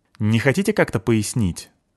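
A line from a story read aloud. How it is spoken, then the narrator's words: Irritated question. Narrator (Russian): спросил раздраженно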